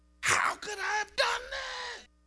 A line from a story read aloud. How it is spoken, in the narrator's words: He wailed